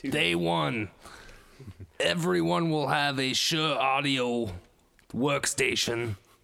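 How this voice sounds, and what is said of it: Imitates another person's voice. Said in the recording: “my first Bernie Sanders impression... Not that was bad. Good. That was good.”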